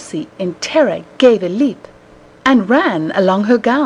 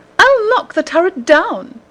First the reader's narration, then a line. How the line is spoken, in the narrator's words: the lady cried